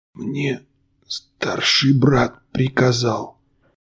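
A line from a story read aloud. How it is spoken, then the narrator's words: Merchant's barely audible whisper. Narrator (Russian): еле слышно прошептал купец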